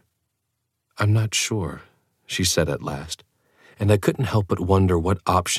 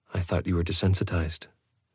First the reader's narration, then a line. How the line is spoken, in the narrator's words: she murmured